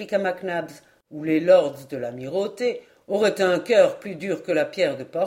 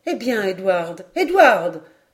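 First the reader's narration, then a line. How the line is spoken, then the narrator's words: Exclaimed. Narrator (French): s'écria Lady Helena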